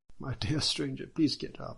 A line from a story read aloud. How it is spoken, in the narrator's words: Judge Bao exclaimed